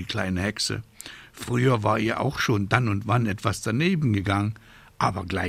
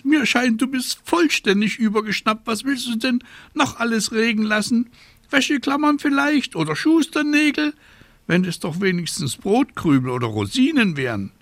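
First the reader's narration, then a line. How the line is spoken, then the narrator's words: Shrieking. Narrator (German): kreischte Abraxas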